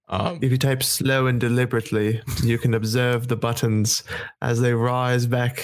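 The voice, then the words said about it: Put-on British accent. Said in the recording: “My British accent is terrible, ... That was, that was pretty good.”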